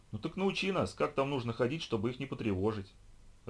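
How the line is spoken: Irritated reply. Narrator (Russian): раздраженно ответила Райли

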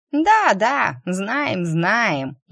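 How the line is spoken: Snide comment. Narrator (Russian): ехидно прокомментировала

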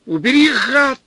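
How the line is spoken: Frantic yell. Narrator (Russian): заорал Степан не своим голосом

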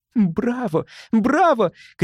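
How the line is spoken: Shout. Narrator (Russian): кричала Элики

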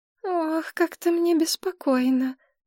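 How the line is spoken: Sighing. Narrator (Russian): вздохнула Мария

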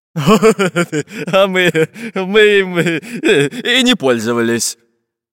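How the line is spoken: Laughing pirate. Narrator (Russian): засмеялся пират Буль-Буль

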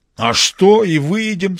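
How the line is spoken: Enthusiastic exclamation. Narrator (Russian): с воодушевлением воскликнул товарищ Хоменко

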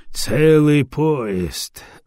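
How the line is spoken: Sighing. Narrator (Russian): вздохнул Дагомара

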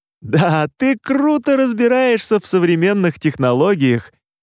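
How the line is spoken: Unnaturally loud laugh. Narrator (Russian): Неестественно громко рассмеялся Роман

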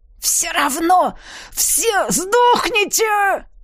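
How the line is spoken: Shout. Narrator (Russian): Закричал он

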